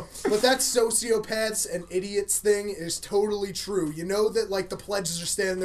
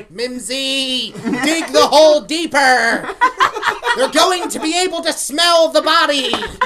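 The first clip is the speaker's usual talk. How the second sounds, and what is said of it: Bad South Park cartoon character voice. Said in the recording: “worst South Park impersonation I've ever heard”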